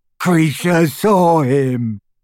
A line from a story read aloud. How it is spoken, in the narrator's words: gasped the elf as tears poured over his snout and into his mouth full of graying teeth